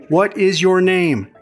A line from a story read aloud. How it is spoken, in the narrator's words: She shouts, assuming I'm either deaf or dumb or have a head injury or all of the above